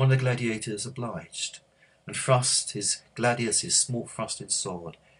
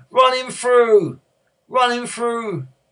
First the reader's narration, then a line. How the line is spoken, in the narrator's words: someone shouted